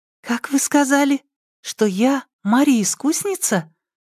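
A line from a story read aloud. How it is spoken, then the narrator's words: Excited whisper, girl. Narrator (Russian): Взволнованно зашептала на ухо Яге девушка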